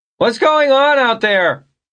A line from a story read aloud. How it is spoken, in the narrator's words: Vern bellowed suddenly through the door